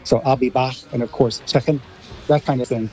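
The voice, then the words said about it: Put-on Scouse accent, American-tinged. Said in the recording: “I liked that American Scouse accent there. That was quite good.”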